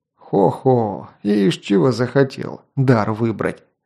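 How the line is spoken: Old man's good-natured chuckle. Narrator (Russian): добродушно хохотнул дед

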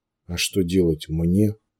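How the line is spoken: Glum question. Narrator (Russian): уныло поинтересовался Клайв

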